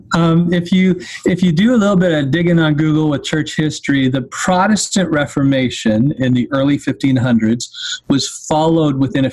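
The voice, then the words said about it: Speaks with a noticeable accent. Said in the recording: “hopefully my accent doesn't make it too muddy”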